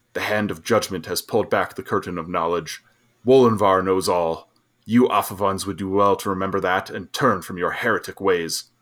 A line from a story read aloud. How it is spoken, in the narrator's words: His face darkening, he growled